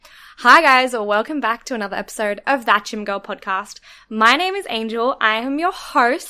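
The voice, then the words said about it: Croaky voice. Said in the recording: “my voice is very croaky. And I know it's very croaky”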